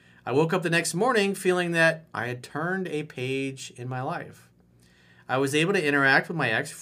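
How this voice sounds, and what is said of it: Usual voice. Nothing is said of it.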